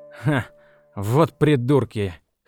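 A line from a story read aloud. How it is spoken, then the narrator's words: Scoffing snort. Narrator (Russian): хмыкнул он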